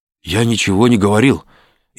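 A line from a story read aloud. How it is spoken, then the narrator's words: Frightened mumbling. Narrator (Russian): испуганно забормотал Шалимов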